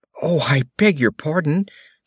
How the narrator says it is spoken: she exclaimed in a tone of great dismay

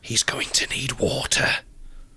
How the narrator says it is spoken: the voice of Chancellor Goth whispers

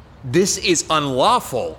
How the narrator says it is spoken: Assange shouted

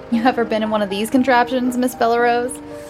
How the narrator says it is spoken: giggled

